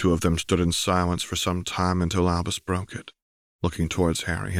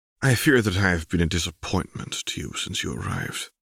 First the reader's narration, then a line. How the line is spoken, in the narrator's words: sighed